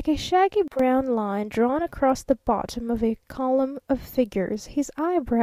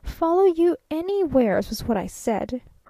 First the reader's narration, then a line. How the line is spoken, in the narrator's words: persisted the traveling salesman, almost irritably